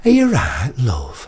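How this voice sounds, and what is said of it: Lancashire accent. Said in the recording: “in a Lancashire accent ... I taught her Lancashire ... Like that”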